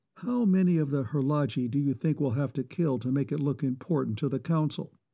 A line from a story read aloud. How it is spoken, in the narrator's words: Reinison asked after a moment, his voice deliberately inflectionless